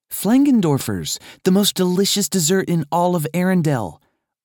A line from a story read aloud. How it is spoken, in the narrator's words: Anna explained cheerfully